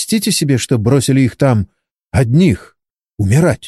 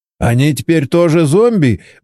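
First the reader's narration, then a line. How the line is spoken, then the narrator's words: Nervous laugh. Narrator (Russian): Борис нервно хохотнул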